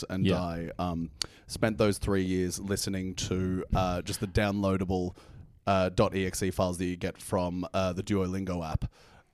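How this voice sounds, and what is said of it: Hard-to-place mixed accent. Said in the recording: “perfect melange of accents ... Very hard accent to place. Sounds kind of halfway between South Africa and New Zealand.”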